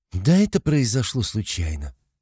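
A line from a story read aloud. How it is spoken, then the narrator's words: Quiet reply. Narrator (Russian): тихо ответила Руди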